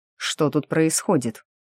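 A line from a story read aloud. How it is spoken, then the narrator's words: Stern question. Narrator (Russian): строго спросил старшина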